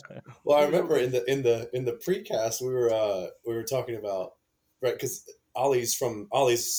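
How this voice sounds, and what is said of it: Usual voice. Nothing is said of it.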